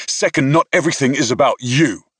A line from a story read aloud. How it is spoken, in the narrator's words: I snapped